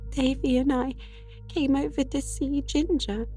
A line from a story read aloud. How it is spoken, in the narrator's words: sobbed Dora